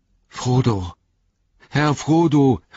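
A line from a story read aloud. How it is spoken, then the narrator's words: Called out. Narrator (German): rief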